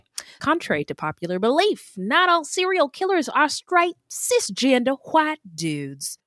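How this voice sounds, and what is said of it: Put-on Texan Southern woman accent. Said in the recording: “I'm not sure if you're doing Australian or Southern. ... That was my Texas white lady accent.”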